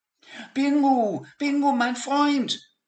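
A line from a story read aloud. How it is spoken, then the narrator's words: Excited shout. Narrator (German): rief Peter ganz aufgeregt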